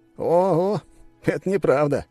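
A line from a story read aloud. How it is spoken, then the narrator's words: Laughing. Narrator (Russian): рассмеялся Лис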